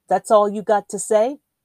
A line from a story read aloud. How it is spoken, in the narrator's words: snapped